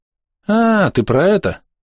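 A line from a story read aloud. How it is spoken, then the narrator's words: Pained drawl. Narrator (Russian): страдальчески скривившись, протянул Митараи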